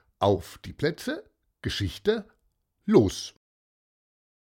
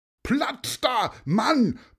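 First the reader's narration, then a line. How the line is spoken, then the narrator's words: Cyclist bellowing. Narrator (German): brüllte ein Fahrradfahrer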